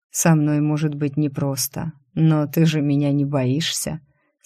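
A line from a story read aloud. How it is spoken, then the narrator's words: Quiet question. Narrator (Russian): спросил тихо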